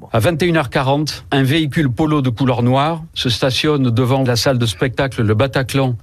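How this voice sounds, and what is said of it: Calm, measured voice, southwestern French accent. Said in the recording (French): “cette parole calme, posée, teintée d'un accent du sud-ouest, presque rassurante”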